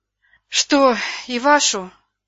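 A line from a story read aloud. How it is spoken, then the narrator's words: Sigh. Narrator (Russian): вздохнула она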